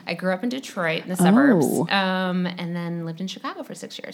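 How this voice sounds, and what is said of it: Midwestern American accent. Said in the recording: “you're from the Midwest ... you couldn't already tell by my voice”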